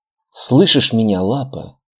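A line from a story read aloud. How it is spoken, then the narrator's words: Hoarse sobbing whisper. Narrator (Russian): Очередной всхлип и хриплый шепот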